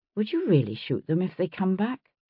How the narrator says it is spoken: I asked quietly

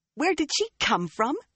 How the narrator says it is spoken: She spluttered

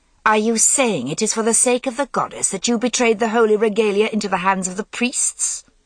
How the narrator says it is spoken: Ninian demanded, and her voice cut with scorn

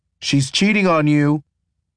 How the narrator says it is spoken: Brian yells after me

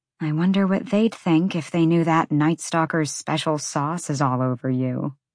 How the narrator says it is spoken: Bryce murmured

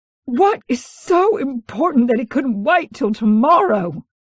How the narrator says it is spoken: she spat

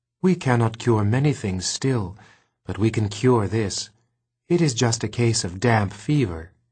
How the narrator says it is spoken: she said soothingly

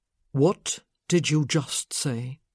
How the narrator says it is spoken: He asked very quietly

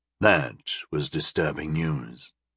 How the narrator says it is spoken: he murmured

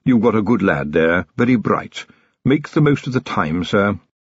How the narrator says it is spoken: Willikins said quietly

